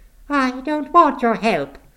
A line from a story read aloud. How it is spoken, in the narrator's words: she snapped